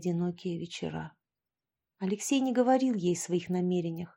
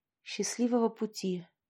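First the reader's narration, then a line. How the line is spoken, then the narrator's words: Dejected voice. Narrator (Russian): упавшим голосом произнесла Поленька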